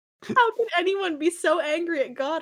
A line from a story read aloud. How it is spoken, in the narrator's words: Hermione sobbed